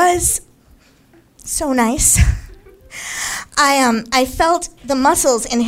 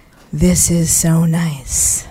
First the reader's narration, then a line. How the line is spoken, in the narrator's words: he just breathed in and said